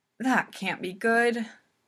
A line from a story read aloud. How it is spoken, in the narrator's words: Hinata sighs